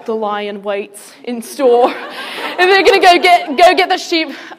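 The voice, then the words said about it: Put-on nature documentary narrator accent. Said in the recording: “it's always, like, somebody with an awesome accent, right? ... I've really been working that up.”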